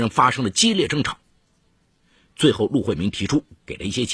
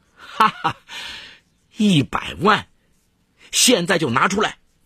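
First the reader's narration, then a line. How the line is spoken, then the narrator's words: Laughing. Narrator (Chinese): 毕东华笑道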